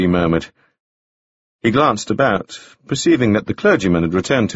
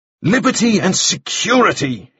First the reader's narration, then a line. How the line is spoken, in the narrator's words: cried